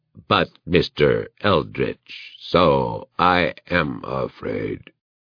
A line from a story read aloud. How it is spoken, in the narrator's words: it intoned weakly